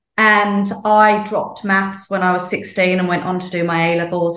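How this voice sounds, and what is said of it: British accent. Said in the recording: “I grew up in the UK, in case people can't tell from my accent.”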